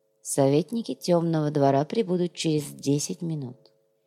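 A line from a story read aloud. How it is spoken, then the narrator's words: Quiet. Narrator (Russian): тихо сказал Наф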